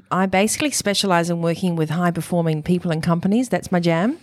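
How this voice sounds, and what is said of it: New Zealand accent. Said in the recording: “you can probably tell from the accent that I was born in New Zealand”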